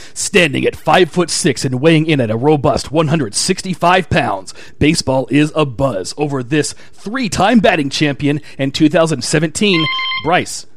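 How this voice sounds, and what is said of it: Epic movie trailer announcer voice. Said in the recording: “the movie trailer voice can make anything sound tough”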